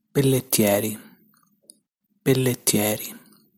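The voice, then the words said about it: Local Italian regional accent. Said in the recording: “This is how I would pronounce it with my local accent.”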